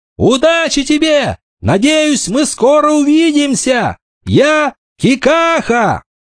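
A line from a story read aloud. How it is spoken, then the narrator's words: Smiling shout. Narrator (Russian): Он улыбнулся и крикнул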